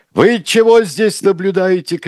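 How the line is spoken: Shout. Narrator (Russian): крикнул он

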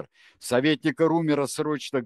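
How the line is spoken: Barking in strange voice. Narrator (Russian): гаркнул он не своим голосом

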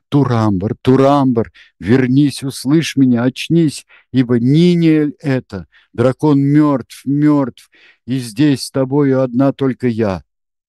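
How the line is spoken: Loud exclamation. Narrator (Russian): громко воскликнула

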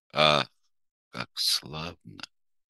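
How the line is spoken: Whispered. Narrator (Russian): прошептал месье Пьер

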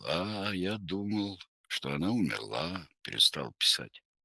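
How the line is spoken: Hoarse, after coughing. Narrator (Russian): Иван Григорьевич покашлял, сипло проговорил

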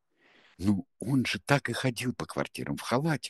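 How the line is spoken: Whispering. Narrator (Russian): шептала Сельма

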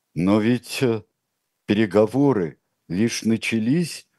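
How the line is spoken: Timid wife. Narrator (Russian): робко подала свой голос жена

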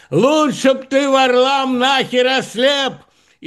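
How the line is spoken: Shouted into ear. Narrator (Russian): Домбровский, приблизив губы к его уху, крикнул

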